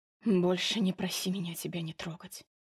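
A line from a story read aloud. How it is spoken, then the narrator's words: Breathed out. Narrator (Russian): выдохнул он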